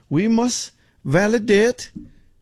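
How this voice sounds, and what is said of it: Bad put-on Asian accent. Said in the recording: “That's a terrible accent.”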